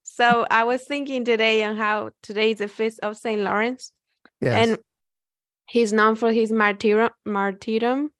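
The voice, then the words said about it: Non-native English accent. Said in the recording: “Sorry for my accent sometimes. ... Your ESL is beautiful.”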